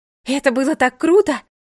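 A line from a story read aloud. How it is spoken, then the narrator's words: Excited exclamation. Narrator (Russian): воскликнула она, возбужденно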